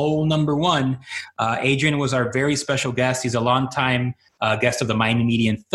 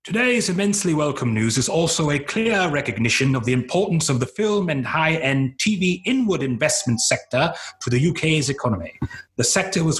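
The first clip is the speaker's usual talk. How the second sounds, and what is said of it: Put-on generic British accent. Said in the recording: “This is not an Adrian. This will just be a generic British.”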